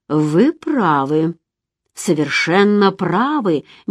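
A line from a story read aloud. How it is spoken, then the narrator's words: Slow, lowered, thoughtful voice. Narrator (Russian): медленно произнес он, понижая голос, тоном человека, который впервые задумался над таким вопросом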